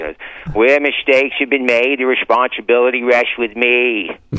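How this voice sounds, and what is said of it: Mayor Quimby cartoon voice impression. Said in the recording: “my Mayor Quimby impression”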